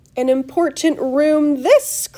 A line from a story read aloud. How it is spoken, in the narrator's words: cried Mr